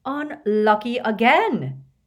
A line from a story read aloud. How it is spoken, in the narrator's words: cried Slughorn dramatically